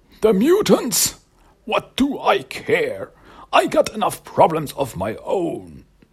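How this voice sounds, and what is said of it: Cranky old man voice. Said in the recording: “my cranky old man voice”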